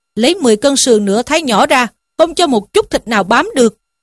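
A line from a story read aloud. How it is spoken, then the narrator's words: Shouting. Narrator (Vietnamese): Lỗ Đạt lại quát lên rằng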